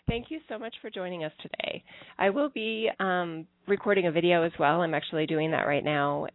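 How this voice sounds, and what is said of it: Congested voice from a cold. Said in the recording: “You can hear in my voice I have a uh, an allergy or a cold type thing going on”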